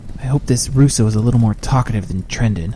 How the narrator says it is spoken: muttered Jack in frustration

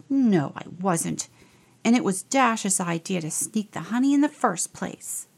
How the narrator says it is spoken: Charlie growled

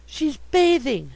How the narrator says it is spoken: gasped

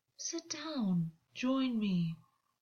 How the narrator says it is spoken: August practically purred

